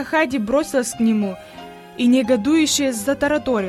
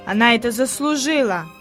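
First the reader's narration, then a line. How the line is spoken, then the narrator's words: Grumbled. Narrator (Russian): пробурчал Питер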